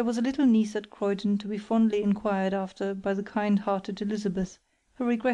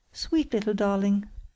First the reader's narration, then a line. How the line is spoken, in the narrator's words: cried Margaret